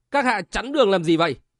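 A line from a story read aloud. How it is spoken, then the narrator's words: Woman's angry loud question. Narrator (Vietnamese): Một ả mày liễu dựng ngược, tức giận lớn tiếng hỏi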